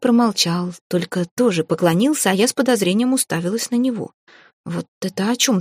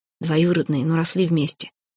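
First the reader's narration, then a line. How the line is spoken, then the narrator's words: Whispered. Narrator (Russian): тоже шепотом ответил он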